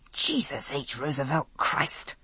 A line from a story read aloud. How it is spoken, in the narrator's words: I muttered